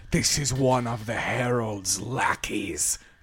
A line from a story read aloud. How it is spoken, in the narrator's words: Kel says as she hisses